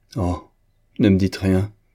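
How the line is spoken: Exclaiming. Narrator (French): s'écria-t-elle

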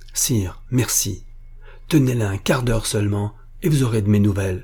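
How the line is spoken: Exclaiming. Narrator (French): s'écria monsieur de la Guerche

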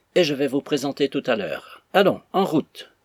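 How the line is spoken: Menacing tone. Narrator (French): Meagles d'un ton menaçant

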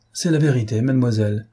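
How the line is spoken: Plain. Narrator (French): répondit l'armateur

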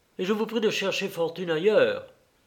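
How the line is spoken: Firm tone. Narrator (French): répondit le peintre d'un ton ferme

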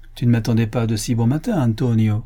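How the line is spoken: Sneering bandit reply. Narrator (French): répondit le bandit en ricanant

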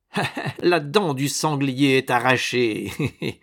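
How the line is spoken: Sneering laugh. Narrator (French): ricana-t-il

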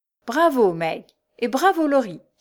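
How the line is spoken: Exclaiming. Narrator (French): s'écria Joe

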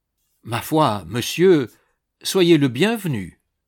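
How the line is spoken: Jovial tone. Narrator (French): dit-il d'un ton jovial

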